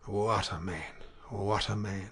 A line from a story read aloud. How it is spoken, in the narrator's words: she said in a low voice